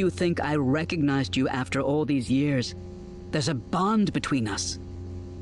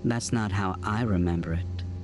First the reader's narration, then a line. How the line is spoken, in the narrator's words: she said coldly